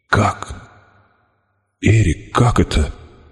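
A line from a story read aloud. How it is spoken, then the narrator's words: Mumbling. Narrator (Russian): бормотал я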